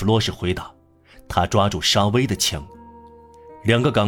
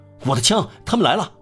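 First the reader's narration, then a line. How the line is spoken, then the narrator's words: Shouted alarm. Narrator (Chinese): 喊着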